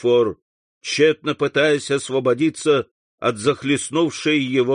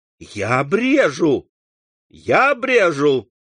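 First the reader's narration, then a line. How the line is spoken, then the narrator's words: Exclaimed. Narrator (Russian): воскликнул Морель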